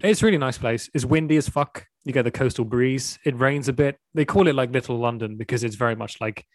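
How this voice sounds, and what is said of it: British accent. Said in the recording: “I was trying to place your accent. ... I'm from the UK”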